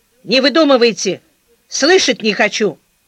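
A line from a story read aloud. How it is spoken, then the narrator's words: Curt, clipped. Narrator (Russian): заведующая сказала ей отрывисто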